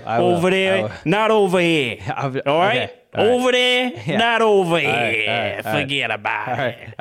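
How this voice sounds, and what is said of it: Put-on blue-collar accent. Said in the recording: “how's my accent? ... It's good. ... little less blue collar”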